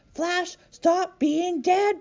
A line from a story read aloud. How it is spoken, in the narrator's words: Bongo yelled